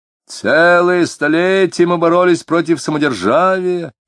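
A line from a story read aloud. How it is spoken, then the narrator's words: Drunken shout. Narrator (Russian): нетрезвым голосом прокричал кто-то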